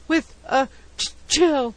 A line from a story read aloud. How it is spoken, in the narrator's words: gasped